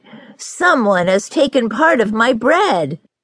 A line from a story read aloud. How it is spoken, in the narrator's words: The third cried